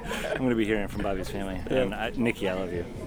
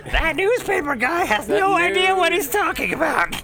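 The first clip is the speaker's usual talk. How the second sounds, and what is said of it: Yelling impression voice. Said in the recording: “You got a good impression down there. ... A little yelling.”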